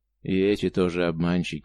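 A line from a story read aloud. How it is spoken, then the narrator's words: Sad flat statement, Cossack. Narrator (Russian): грустно констатировал казак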